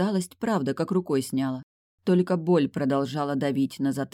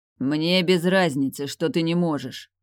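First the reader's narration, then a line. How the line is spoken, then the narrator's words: Growling. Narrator (Russian): прорычал он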